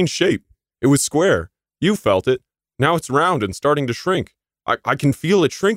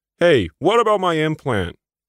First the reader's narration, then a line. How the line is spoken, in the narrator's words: He yelled after them